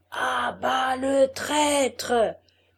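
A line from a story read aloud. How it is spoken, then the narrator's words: Repeated by many voices. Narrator (French): répétèrent mille voix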